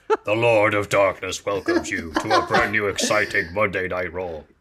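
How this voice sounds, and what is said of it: Very deep, low impression voice. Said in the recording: “doing an Undertaker impression ... I just can't get my voice that low ... you've got quite a deep voice”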